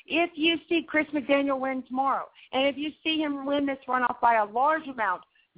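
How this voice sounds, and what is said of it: Southern US accent. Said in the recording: “hear my southern accent coming out”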